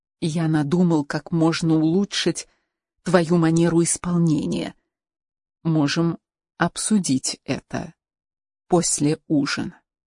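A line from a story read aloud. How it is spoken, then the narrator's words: Whispered in ear. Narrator (Russian): Рауль прошептал на ухо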